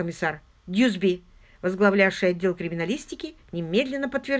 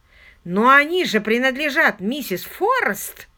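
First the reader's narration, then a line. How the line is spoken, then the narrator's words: Exclaiming. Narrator (Russian): воскликнул Паркер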